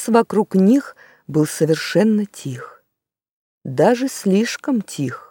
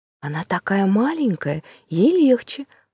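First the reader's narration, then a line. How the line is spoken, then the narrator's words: Whisper. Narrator (Russian): прошептал Юстас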